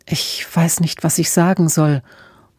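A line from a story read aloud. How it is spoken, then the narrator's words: Murmured. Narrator (German): murmelte Emma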